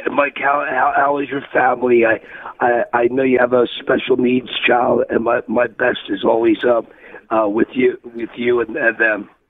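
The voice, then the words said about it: Strained, unwell-sounding voice. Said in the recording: “excuse my voice. It's not from yelling. That something came over me the last couple days.”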